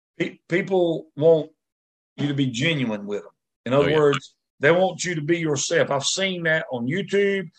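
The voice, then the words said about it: Rural country American accent. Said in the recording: “I've known some guys that were as country as I am ... they love my accent”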